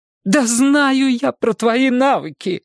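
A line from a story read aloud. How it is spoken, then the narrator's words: Nearly shouting. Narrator (Russian): почти закричала директор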